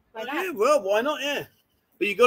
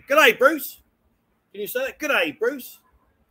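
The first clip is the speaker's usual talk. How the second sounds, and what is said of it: Put-on Australian accent. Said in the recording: “you've got to practice Australian. Can you speak Australian? ... They speak Australian. ... Well, that's Australian.”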